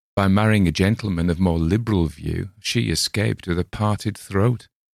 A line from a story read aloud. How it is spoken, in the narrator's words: said Sancho with a light laugh